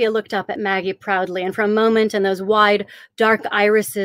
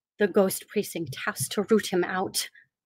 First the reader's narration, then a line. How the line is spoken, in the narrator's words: Zofia murmured